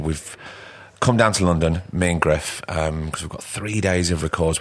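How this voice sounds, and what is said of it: Hoarse, rough voice. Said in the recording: “my voice is a little bit um, crook.”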